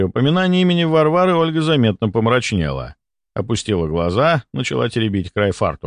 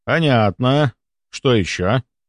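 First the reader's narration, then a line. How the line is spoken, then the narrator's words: Grunt. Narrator (Russian): хмыкнул я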